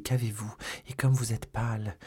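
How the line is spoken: Murmured. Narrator (French): murmura D'Artagnan

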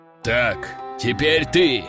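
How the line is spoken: Growled. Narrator (Russian): рыкнул Даргамон

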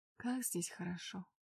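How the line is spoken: Quiet speech. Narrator (Russian): тихо произнесла я

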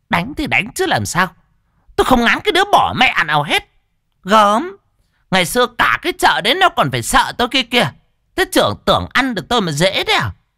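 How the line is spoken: Scoffing laugh. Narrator (Vietnamese): Mụ Lan cười khẩy

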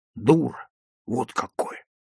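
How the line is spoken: Whisper. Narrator (Russian): шепнул Сережа

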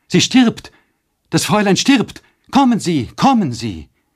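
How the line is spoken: Horrified scream. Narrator (German): Mit entsetzlichem Schrei hereinstürzend rief Nanni

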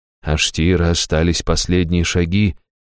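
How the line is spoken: Gently interrupting. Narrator (Russian): мягко прервал он

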